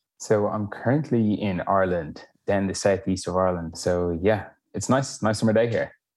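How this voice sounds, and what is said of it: Distinct non-American accent. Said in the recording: “your voice has a little bit of a different sound than some others”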